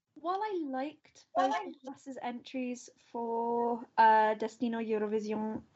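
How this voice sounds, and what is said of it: Accidental French-sounding accent. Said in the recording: “that accent came out really French”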